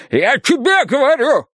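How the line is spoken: Yelling. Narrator (Russian): орал он

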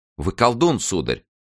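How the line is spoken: Exclaimed. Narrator (Russian): воскликнула герцогиня

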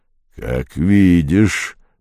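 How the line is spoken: Grumble. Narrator (Russian): проворчал великий спрут

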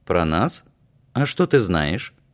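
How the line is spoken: Stern question. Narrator (Russian): музыкант строго спросил

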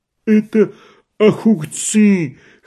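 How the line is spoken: Wheezing, choking on dough. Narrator (Russian): хрипел Балауун, давясь тестом

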